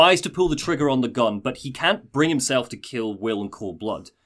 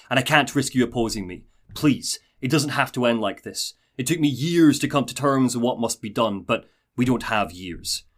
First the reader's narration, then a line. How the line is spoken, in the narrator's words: Paul snarls